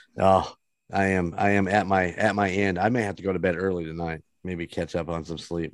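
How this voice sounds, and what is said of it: Tired, hoarse, worn-out voice. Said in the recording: “how exhausted tired ... My voice is gone.”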